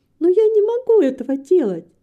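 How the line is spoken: Almost laughing. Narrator (Russian): сказала Рита, почти засмеявшись

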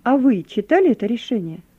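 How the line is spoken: Plain. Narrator (Russian): спросил я офицера

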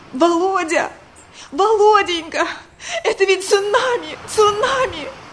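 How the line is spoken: Hysterical sobbing. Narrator (Russian): в истерике зарыдала

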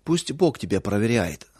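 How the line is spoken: Dry reply. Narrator (Russian): сухо ответил Павел

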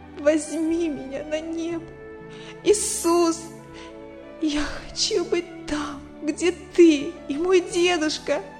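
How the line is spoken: Sobbing boy. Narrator (Russian): рыдал мальчик, обращаясь к Богу

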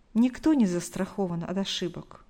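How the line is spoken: Sigh. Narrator (Russian): вздохнула Галина Николаевна

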